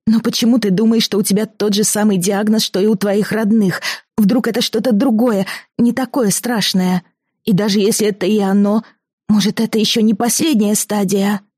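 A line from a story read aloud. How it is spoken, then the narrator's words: Pleading exclamation. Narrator (Russian): умоляюще воскликнула Алиса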